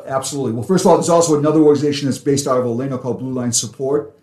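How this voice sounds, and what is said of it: Boston accent. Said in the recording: “Protecting is my Boston accent.”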